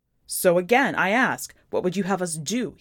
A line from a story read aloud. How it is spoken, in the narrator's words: He yells